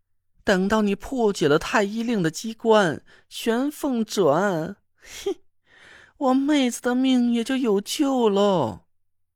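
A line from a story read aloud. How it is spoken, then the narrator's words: Laughing. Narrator (Chinese): 李金花笑着说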